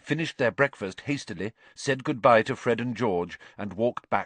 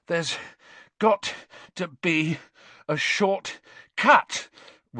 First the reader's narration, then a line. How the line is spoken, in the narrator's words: Ron panted as they climbed their 7th long staircase